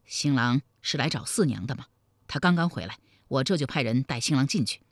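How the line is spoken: Low-voiced question. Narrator (Chinese): 李隆基压低声音问道

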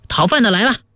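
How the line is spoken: Laughing greeting. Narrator (Chinese): 木儿笑着迎了出来

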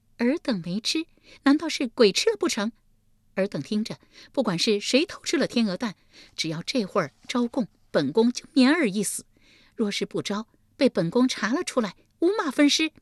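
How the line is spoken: Cold sneer. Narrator (Chinese): 立即冷笑一声道

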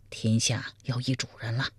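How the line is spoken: Quiet. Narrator (Chinese): 苗逊小声说

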